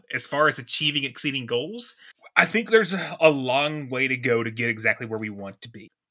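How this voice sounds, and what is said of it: Kentucky accent. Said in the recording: “a lowly old man from Kentucky that has a funny accent”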